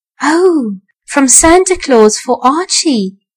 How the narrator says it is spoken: whispered Mrs

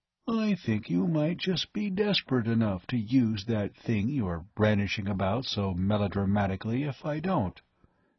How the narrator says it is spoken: remarked in a calm, conversational tone

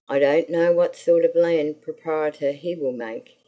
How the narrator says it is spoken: he said

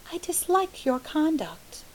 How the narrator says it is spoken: she said calmly

